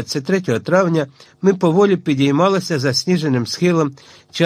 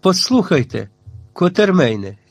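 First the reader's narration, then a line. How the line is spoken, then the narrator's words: Sighed. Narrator (Ukrainian): зітхнув сер Генрі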